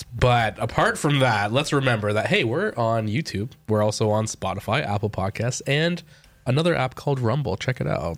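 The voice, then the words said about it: Deeper, slightly husky voice from cold. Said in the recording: “I'm getting over a little sickness, a little cold again, so my voice is a little deeper, a little more sultry, perhaps.”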